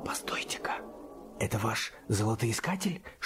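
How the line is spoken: Whispered question. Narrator (Russian): шепотом спросил Боб

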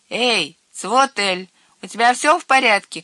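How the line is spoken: Shouting. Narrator (Russian): крикнул Хёрби

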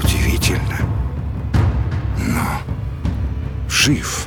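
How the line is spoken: Quiet. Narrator (Russian): тихо сказал король

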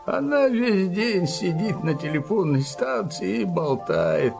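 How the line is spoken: Grumbled. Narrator (Russian): проворчал Килим

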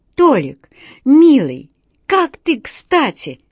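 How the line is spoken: Zoo director pleading. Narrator (Russian): взмолился директор зоопарка

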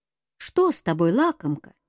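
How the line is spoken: Plain question. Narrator (Russian): спросила Белянка

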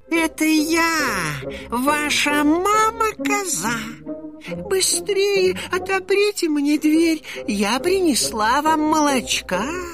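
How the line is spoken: Thin high disguised voice. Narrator (Russian): сказал волк тоненьким голосом

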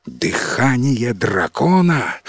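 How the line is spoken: Terrified exclamation. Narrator (Russian): в ужасе воскликнул главный советник короля

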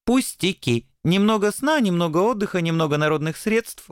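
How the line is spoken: Cheerful reply. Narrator (Russian): бодро отвечал белый ангел

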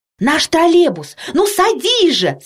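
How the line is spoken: Shouting. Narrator (Russian): закричала Тома

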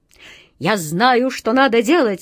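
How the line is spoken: Exclaimed. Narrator (Russian): воскликнул он

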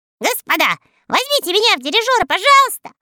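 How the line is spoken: Shouted reply. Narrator (Russian): закричал в ответ Мурзилка

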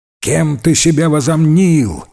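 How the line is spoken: Father shouting angrily. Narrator (Russian): кричал на Эйджи отец

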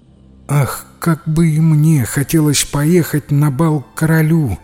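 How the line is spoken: Wistful sigh. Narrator (Russian): вздохнула она

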